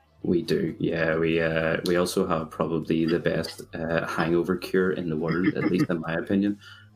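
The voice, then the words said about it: Northern Irish Belfast accent. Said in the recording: “for anyone who has realized where my accent's from, I'm from a lovely place called Belfast”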